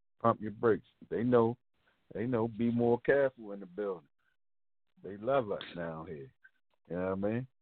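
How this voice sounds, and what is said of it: Different regional American accent. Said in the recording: “you have a different accent”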